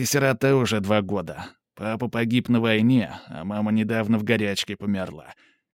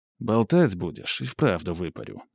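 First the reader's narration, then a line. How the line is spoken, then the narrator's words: Calm reply. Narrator (Russian): спокойно отзываюсь я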